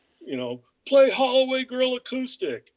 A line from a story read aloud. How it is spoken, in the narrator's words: in the back shouted out